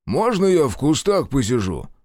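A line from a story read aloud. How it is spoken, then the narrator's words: Deep bass voice. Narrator (Russian): пробасил Шестаков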